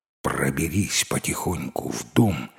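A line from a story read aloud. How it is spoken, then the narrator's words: Dog whispering. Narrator (Russian): шепнула собака кошке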